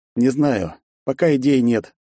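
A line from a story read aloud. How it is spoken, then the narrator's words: Heavy sigh. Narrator (Russian): тяжело вздохнул я в ответ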